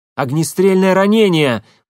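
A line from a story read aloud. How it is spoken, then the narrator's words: Nearly shouting into phone. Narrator (Russian): почти прокричал в трубку Легостаев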